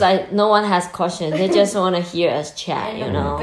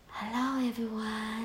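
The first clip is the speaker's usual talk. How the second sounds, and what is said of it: Soft, creepy witch-like voice. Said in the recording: “gentle voice... You sound like a witch that's about to eat somebody... that's kind of creepy”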